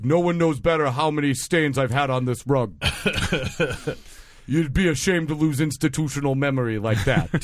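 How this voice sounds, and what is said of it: Imitates another person's voice. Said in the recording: “my Donald Trump impression”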